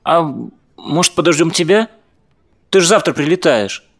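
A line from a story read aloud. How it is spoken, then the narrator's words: Hesitant suggestion. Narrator (Russian): неуверенно предложила Даша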